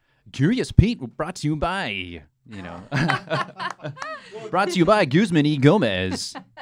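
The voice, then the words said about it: Cheesy radio announcer voice. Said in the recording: “I used to have this real cheapo radio voice that I used to say all the time.”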